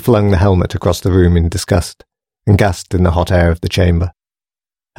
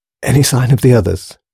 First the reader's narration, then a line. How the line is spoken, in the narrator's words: Grace managed to gasp at last